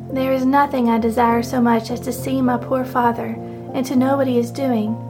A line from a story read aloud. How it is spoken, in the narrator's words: said with a sigh